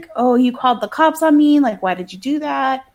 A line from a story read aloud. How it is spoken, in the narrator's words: He's yelling at the mom